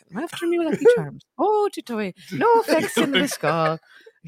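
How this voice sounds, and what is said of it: Bad put-on Irish accent. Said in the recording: “trying to do an Irish accent ... fucking awful ... It's awful ... that's the Irish”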